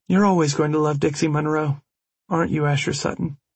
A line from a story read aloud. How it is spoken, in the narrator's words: She wasn't talking in her sultry voice anymore